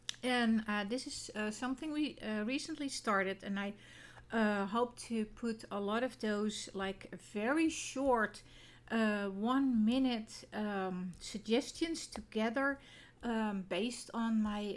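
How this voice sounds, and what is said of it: Non-native English accent. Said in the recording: “this is the familiar accent... I still do not have the proper pronunciation”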